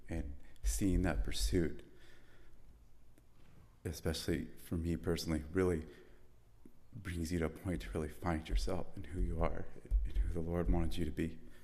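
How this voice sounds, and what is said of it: Emotional voice. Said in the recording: “I'm a little emotional.”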